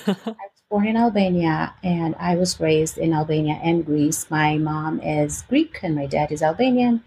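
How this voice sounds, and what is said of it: Slight foreign accent. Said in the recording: “Do I pick up on a slight accent? ... You do. ... I still am really proud of that accent, which comes out more severely when I am upset or really excited”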